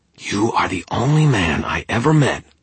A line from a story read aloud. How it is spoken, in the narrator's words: Tara growled